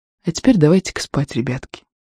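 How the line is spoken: Calm, soothing. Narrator (Russian): Сельма, допев, спокойно, успокаивающе говорит

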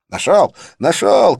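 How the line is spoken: Triumphant yell. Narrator (Russian): торжествующе завопил он

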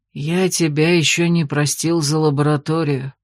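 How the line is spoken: Old man, through clenched teeth. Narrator (Russian): процедил дед

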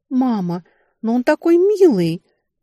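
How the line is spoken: Sighing. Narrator (Russian): вздохнула Арона

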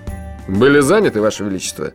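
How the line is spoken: Sarcastic inquiry. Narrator (Russian): ехидно осведомился Джуфин

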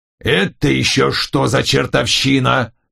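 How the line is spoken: Growled. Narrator (Russian): зарычал он

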